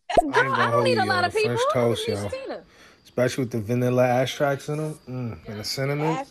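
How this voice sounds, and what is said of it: Noticeable accent slipping out. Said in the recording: “he just his accent came out ... Yo, y'all teasing me about my accent?”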